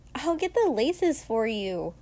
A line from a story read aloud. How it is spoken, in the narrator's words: Mina said brightly